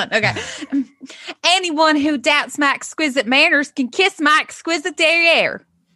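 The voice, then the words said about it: Put-on Southern American accent. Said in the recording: “I guess I should use like a southern accent ... talk like Britney ... get into character”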